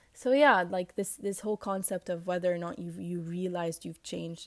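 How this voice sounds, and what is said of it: Raspy morning voice. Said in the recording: “my raspy voice, but this is how I sound in the morning”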